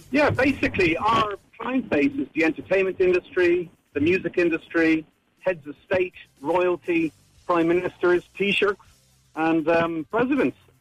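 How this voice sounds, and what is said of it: Irish accent. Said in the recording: “That's not a Hollywood accent, though... You're Irish, are you?... do not get rid of your Irish accent”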